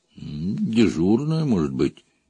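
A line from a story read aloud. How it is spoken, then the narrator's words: Uncertain. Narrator (Russian): неуверенно проговорил Гриша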